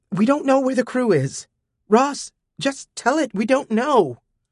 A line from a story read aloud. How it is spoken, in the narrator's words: Elytra said frantically